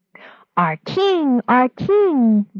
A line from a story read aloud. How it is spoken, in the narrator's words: the people cried